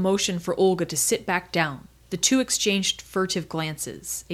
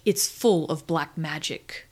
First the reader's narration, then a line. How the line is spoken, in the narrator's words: Olga answered, coldly